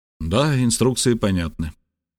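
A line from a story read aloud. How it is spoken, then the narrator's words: Calm. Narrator (Russian): спокойно произнес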